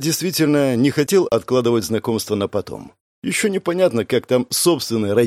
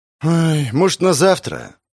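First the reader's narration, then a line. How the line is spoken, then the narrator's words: Sighing. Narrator (Russian): Вздохнул мещанин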